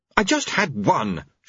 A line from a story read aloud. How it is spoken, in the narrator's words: she snapped